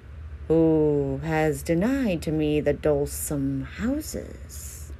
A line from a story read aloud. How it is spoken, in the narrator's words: his forward shorn had he of all its boldness, and he said with sighs